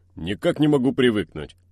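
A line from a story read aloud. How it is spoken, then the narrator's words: Grumbling. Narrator (Russian): пробурчал он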